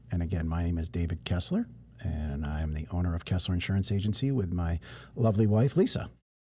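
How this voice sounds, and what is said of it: Smooth radio announcer voice. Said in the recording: “With a beautiful radio voice”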